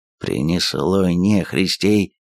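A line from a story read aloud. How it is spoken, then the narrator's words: Quiet curse. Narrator (Russian): тихо выругался Кожан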